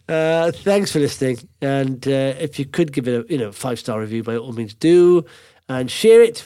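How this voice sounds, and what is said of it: Voice with a cold. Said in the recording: “I've got a cold. I'm a bit delirious, I think.”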